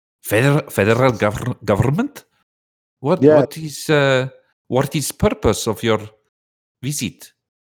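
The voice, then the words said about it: Unclear put-on foreign accent. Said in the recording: “I'm trying to figure out your accent... I don't know if you're trying to go Mexican or something... Are you Serbian?... Serbian Mexican”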